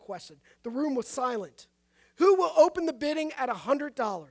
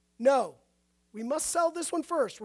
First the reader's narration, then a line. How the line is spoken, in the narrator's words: replied the auctioneer